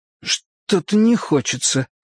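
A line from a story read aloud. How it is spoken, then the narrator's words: Forced out, reluctant. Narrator (Russian): выдавил я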